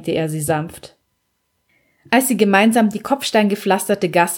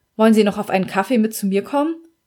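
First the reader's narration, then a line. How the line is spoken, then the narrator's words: Plain question. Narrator (German): fragte Rina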